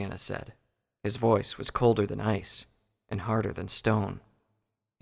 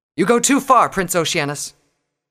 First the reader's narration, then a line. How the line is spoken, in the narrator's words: said angrily